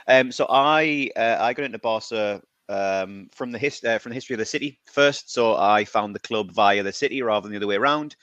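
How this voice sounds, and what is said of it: British accent. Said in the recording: “I'm from the UK, as you can probably tell very quickly from my accent.”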